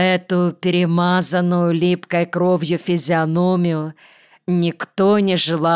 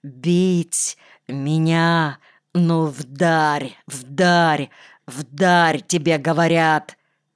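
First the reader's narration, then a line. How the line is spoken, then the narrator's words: Growling. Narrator (Russian): рычал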